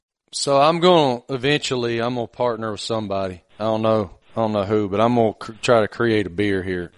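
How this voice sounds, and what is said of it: Appalachian country accent. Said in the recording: “a guy from Appalachia who has a fake country accent ... The accent in the Appalachian”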